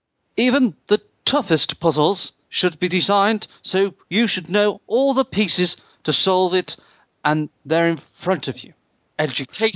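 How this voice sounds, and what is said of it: British politician impression. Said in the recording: “What accent shall I do? ... A British politician.”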